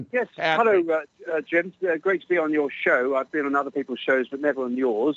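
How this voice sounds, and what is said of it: British English accent. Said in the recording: “You can tell by my accent I'm across the pond.”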